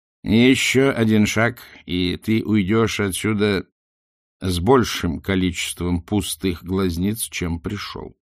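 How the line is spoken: Plain. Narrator (Russian): сказал главный вор

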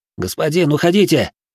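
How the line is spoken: Group shouting. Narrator (Russian): кричали не его люди, а мои

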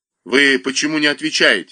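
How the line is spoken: Angry. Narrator (Russian): сердито сказал Косушка

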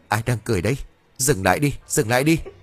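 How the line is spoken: Frightened trembling question. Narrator (Vietnamese): hắn nhăn nhó sợ hãi, miệng run rẩy hỏi

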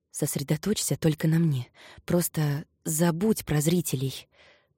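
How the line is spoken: Whisper. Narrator (Russian): прошептал он

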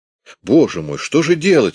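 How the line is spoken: Panicked exclamation. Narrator (Russian): воскликнул он в панике

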